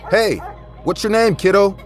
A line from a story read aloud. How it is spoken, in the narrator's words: I yelled from my balcony